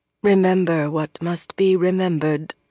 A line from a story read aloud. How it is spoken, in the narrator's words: Anaya murmured